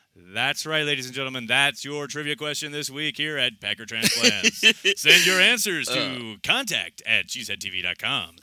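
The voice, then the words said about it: Announcer-style voice. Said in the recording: “I like it when you get your announcer voice.”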